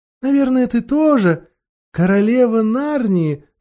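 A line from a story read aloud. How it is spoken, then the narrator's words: Mocking yet tender question. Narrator (Russian): насмешливо и ласково спросила колдунья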